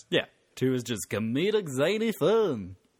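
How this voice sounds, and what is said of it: Zany movie trailer announcer voice. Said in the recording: “That's my trailer voice. For kids movies. But it would have to be appropriately zany”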